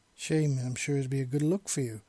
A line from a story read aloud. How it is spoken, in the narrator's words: he said playfully